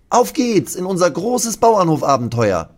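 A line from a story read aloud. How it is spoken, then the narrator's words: Called out. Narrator (German): ruft Lasse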